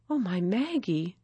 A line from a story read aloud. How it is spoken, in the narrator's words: she whispered